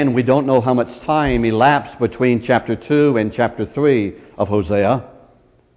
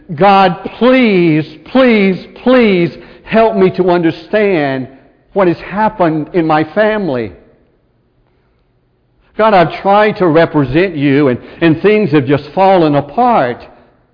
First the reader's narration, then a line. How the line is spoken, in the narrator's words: Hosea cried out in desperation